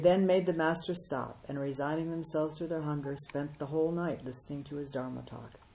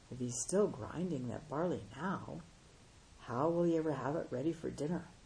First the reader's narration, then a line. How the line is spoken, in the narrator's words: the monks, disarmed by the master's innocence, whispered to one another